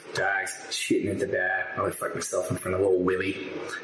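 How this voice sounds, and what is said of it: Put-on Boston accent. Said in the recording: “slam poetry with Boston accent”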